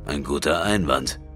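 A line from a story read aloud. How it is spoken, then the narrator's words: Growling. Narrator (German): knurrte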